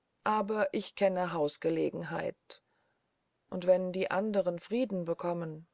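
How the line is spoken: Barely audible whisper. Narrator (German): setzte er so leise hinzu, dass die Worte kaum zu Mariens Ohr drangen

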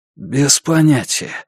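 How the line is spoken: Hoarse. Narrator (Russian): хрипло сказал Макар

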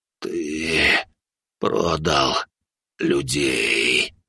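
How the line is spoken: Hoarse rasp. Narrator (Russian): прохрипел он

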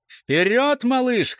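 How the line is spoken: Cheerful shout. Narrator (Russian): крикнул неугас весело

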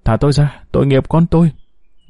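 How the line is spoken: Moaning woman. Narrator (Vietnamese): cô ta rên rỉ

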